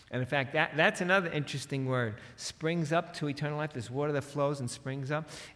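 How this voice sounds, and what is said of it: New York accent. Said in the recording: “my New York accent, that makes it sound funny”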